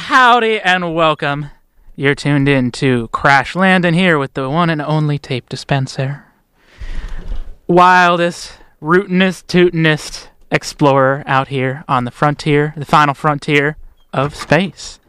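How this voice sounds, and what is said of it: Put-on cowboy accent. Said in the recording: “I'm not going to be talking in this accent all night. I'm not sure that I can do all that.”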